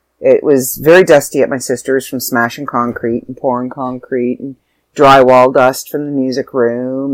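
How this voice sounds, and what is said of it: Sore throat, stuffy congested voice. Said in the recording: “you can probably hear it in my voice. I've got a little bit of a sore throat. ... I'm a little stuffy.”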